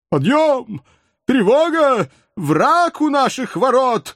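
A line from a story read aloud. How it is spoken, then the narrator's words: Full-voiced yell. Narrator (Russian): в полный голос завопил отважный фанат популярной трилогии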